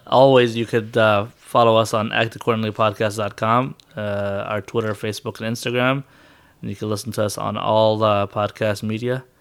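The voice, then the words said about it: Nasal, congested voice. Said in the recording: “I have a sinus thing going on, so I sound kind of nasally already ... More nasally.”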